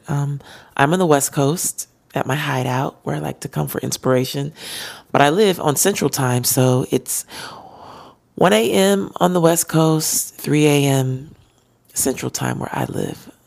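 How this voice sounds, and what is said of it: Tired-sounding voice. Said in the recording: “I didn't realize how tired my voice was. It's tired. ... I just realized when I started trying to sing how tired my voice was.”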